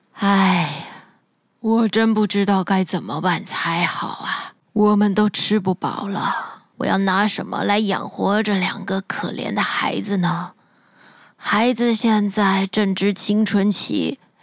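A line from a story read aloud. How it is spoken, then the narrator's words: Deep sigh. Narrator (Chinese): 他深深的叹了一大口气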